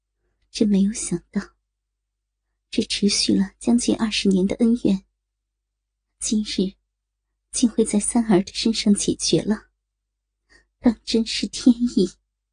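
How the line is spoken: Relieved, long sigh, calm. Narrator (Chinese): 感觉获得新生的成熟圣女玉清心，长长吁了一口气，淡淡的说

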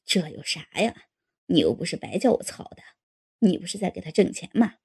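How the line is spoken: Laughing. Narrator (Chinese): 大龙笑了

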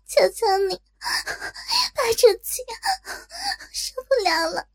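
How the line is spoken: Sobbing moan. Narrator (Chinese): 口中不断发出哭泣般的呻吟

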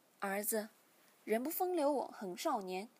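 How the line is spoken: Sighing father. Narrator (Chinese): 父亲叹了口气，便说

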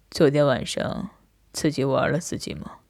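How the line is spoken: Suddenly cold voice. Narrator (Chinese): 他通红着脸，他的声音顿时冷了下来

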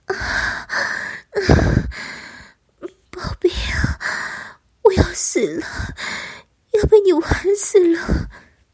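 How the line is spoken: Panting. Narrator (Chinese): 一面已由口中喘呼着

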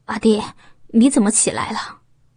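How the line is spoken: Low guilty call. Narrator (Chinese): 刘波身子一颤，有点做贼心虚，低声叫了一下

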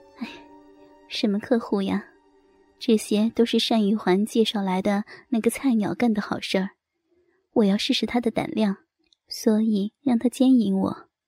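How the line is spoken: Cold laugh. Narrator (Chinese): 陈傲芳闻言冷冷的笑了一下，然后说道

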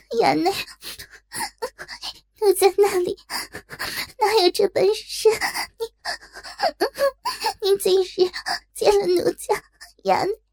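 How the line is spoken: Choked, ashamed sobbing. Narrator (Chinese): 内心着实气苦，芳心更是羞气，哽咽道

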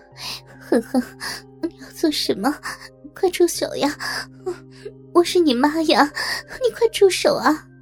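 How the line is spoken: Anxious, breathless cry. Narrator (Chinese): 妈妈心急气喘的喊道

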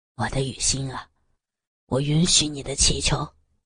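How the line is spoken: Hoarse, close to ear. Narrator (Chinese): 严永成凑近他可爱的耳垂边，沙哑地说

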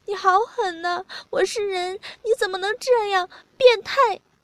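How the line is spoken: Crying. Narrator (Chinese): 他哭了，说

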